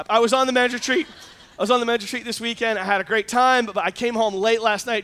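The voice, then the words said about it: Hoarse, strained worn-out voice. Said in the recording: “You probably already noticed my voice is kind of not, it's failing me ... my voice is a little bit shot”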